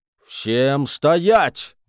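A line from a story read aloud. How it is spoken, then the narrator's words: Thunderous booming voice. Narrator (Russian): Громовым голосом пророкотал Луи Дюваль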